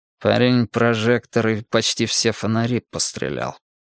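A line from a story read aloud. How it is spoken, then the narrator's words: Through gritted teeth. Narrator (Russian): сквозь зубы сказал кардинал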